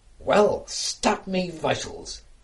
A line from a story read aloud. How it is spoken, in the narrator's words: exclaimed the astonished fisherman